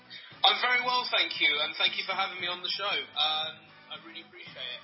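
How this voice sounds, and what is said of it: East London English accent. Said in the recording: “I get to hear your cool accent ... I'm from East London”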